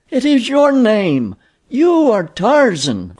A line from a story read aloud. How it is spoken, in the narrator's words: cried La